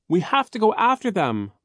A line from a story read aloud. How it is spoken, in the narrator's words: Violet screamed, her face streaked with tears